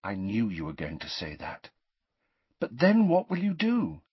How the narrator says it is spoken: Hermione said sadly

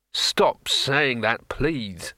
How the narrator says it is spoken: moaned Rincewind

